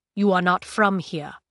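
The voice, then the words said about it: Thick foreign accent. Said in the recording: “in a thick accent that still made it a struggle to capture the words”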